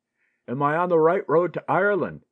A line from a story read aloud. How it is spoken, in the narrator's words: he shouted